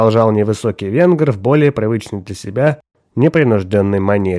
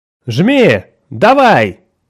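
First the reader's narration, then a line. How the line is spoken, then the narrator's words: Shouted. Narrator (Russian): выкрикнул Уэйкфилд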